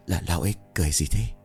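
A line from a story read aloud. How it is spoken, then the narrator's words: Frightened whisper. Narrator (Vietnamese): Thằng Long bấy giờ thì thầm sợ hãi nói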